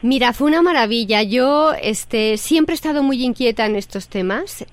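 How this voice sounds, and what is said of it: Strong non-local Spanish accent. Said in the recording (Spanish): “Pero parece que te bajaste del avión apenas ayer... se pule el acento... voy a terminar hablando así todo el día”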